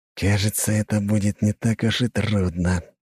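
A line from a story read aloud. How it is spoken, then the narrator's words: Hiss. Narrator (Russian): прошипел он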